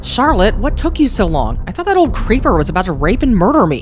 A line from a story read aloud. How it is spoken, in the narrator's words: Laura snapped